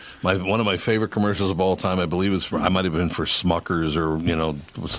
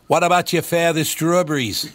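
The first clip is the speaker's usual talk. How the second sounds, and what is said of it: Poor Maine accent, like Mayor Quimby. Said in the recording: “That is the worst Maine accent I've ever heard ... Like Mayor Quimby ... it's like New Jersey ... That's more of a roadie accent, actually”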